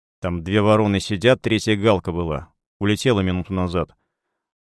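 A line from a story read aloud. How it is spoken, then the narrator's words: Grumbled. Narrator (Russian): пробурчал я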